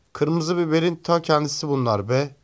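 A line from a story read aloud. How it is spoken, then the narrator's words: Shouting. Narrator (Turkish): diye bağırdı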